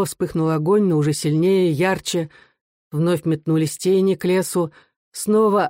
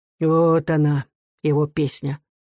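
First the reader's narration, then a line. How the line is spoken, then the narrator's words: Muffled, hollow voice. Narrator (Russian): глухо сказал Рыбин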